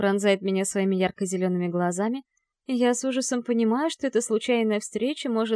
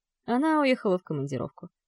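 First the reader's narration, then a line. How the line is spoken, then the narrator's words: Calm. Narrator (Russian): спокойно отвечает Стас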